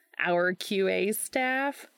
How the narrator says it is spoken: Gabe laughed

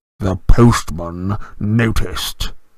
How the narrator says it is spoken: he said through gritted teeth

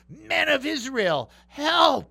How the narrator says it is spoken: yelling

